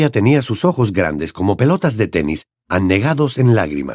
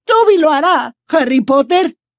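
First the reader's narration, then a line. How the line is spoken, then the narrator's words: Shrieked. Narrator (Spanish): chilló Dobby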